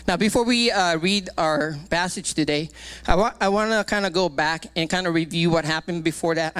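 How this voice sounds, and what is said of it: Out of breath, breathy speech. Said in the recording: “I don't know why I'm out of breath. I'm not playing, but I'm out of breath.”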